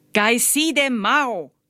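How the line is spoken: Screaming. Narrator (German): schrie Lai

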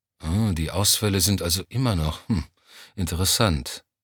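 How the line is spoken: Absent-minded murmur. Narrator (German): murmelte Johnny abwesend

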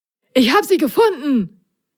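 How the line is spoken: Excited call. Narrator (German): rief Prop aufgeregt

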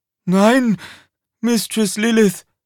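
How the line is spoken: Panting. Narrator (German): keuchte er

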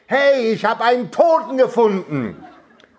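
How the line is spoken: Roaring even louder. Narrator (German): brüllte abermals, aber noch lauter als zuvor

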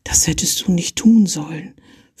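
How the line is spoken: Whispering. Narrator (German): flüsterte sie ihm zu

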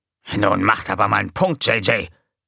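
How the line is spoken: Hissing. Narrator (German): fauchte Gonko

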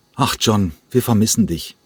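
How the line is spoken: Plain. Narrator (German): sagte

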